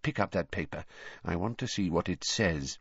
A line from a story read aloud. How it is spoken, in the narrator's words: he added in an undertone